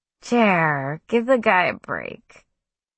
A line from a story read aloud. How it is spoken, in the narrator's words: chuckled lightly and said